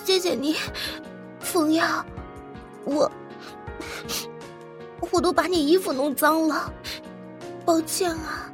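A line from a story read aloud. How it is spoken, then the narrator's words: Embarrassed, after crying. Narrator (Chinese): 莫雨嫣 哭了好一会儿，才渐渐收住 有一点不好意思的说道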